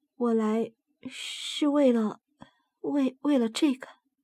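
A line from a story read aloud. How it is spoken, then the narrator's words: Low voice. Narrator (Chinese): 他低声的说道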